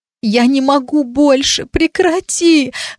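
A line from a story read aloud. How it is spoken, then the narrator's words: Pleading. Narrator (Russian): взмолилась я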